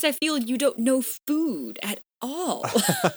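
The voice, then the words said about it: Lower imitated voice with lilt. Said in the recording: “I can do the lower voice, but he's just got this lilt that it's really hard to mimic.”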